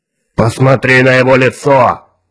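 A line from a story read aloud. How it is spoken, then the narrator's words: Harsh bark. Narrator (Russian): рявкнул Кворн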